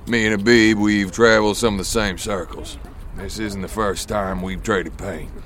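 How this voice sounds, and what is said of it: American Southern accent. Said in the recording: “You're American. The accent is from the South.”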